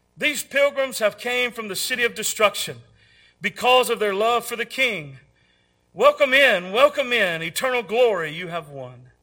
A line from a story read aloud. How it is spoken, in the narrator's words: The shining ones called out